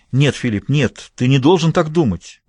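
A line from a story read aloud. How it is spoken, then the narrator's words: Frightened exclamation. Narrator (Russian): испуганно воскликнула Эдит де Хевиленд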